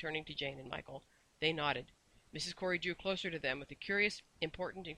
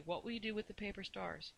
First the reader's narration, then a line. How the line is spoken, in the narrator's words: she said dreamily